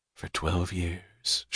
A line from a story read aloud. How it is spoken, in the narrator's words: she said softly